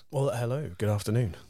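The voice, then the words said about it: Smooth, silky put-on radio voice. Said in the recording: “what a lovely, smooth, silky radio voice you have there. ... It's completely put on just for this.”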